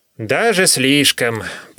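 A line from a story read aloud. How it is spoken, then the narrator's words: Groan. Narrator (Russian): простонал Гольга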